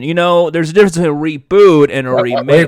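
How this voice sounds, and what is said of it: Imitates another person's voice. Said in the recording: “doing my Kev Smith impression”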